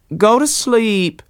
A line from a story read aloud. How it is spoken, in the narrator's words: cried his mother faintly